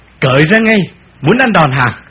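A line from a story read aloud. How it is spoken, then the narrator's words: Shouting. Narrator (Vietnamese): Một thằng quát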